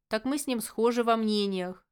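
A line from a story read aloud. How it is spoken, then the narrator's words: Snort. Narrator (Russian): хмыкнул бывший маг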